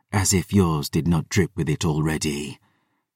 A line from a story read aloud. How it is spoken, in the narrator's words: Selene hissed